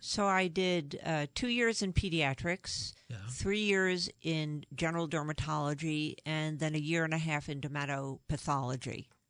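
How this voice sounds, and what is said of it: New York accent. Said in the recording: “I'm originally from New York. You can probably tell from my accent.”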